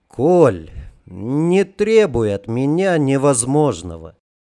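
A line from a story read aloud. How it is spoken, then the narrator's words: Genuinely sad sigh. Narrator (Russian): Печально вздохнул Жарко, и печаль не была комичным прикрытием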